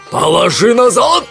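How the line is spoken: Roaring. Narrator (Russian): взревел один из разбойников

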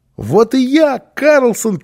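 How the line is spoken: Child shouting. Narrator (Russian): крикнул малыш

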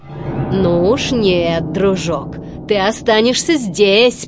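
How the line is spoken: Growled. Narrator (Russian): прорычал Стромболи

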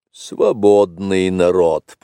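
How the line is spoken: Grumbling. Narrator (Russian): проворчал Ка

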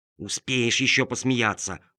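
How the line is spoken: Whispering radish. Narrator (Russian): прошептала редиска

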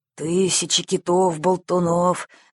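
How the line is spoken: Grumbling captain. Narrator (Russian): заворчал капитан

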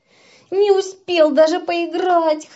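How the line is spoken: Whimpering. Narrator (Russian): хныкал он

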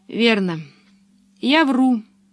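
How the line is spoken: Sad. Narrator (Russian): сказала она печально

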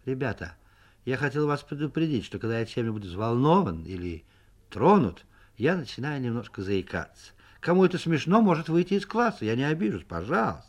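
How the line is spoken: Calm, slightly embarrassed. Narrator (Russian): писатель слегка покраснел и сказал в сторону Соньки нормально и спокойно

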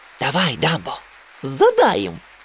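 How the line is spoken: Whispered in ear. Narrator (Russian): прошептал ему на ухо

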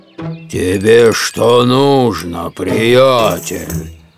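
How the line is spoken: Angry grumble. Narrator (Russian): Заворчал Миша и тоже начал сердиться

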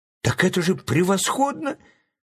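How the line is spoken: Exclaimed. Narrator (Russian): воскликнул Чарли Блэк

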